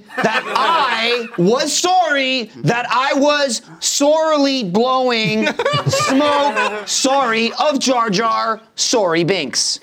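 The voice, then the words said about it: Put-on Canadian accent. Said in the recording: “implied by the Canadian accent”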